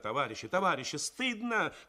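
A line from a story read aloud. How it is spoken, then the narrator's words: Shouting. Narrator (Russian): кричала Тоня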